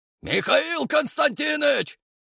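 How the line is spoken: Hoarse bass call. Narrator (Russian): окликнул меня хриплый бас

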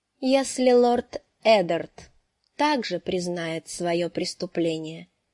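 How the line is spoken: Plain, after a pause. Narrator (Russian): сказала она наконец

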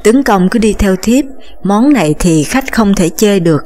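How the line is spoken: Smiling. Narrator (Vietnamese): Trinh Tâm mỉm cười

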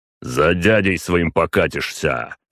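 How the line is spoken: Father's angry snarl. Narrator (Russian): рыкнул на него отец

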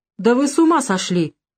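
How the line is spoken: Involuntary exclamation, girl. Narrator (Russian): непроизвольно воскликнула девушка

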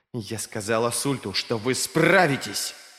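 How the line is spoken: Growled into face. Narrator (Russian): прорычала она в лицо

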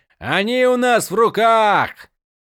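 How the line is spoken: Shouting. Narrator (Russian): закричал лорд Гребень Ворона

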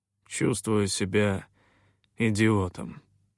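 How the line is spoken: Grumble. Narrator (Russian): проворчал я

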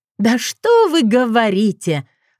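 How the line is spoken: Angry laugh. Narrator (Russian): рассмеялась я зло

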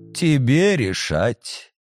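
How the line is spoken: Housekeeper sighing heavily. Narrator (Russian): ключница тяжело вздохнула

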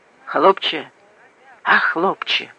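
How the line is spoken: Whispered call. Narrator (Russian): шепотом позвала она

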